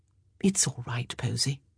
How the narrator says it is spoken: Violet said softly

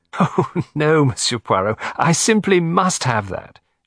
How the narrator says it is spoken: she cried laughingly

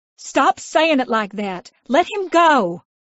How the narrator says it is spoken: I yelled

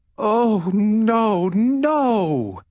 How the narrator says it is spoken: cried the queen

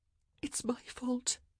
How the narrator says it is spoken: she whispered

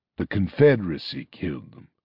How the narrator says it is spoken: said Arcturus, his voice low and threatening

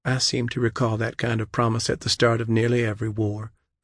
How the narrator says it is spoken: Michaela replied coolly

